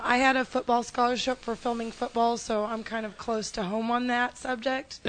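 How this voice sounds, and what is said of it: Weak, lost voice. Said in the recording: “I don't know if you can hear me. I lost my voice.”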